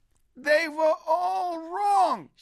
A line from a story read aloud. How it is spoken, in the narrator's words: shouted Moshe Weiss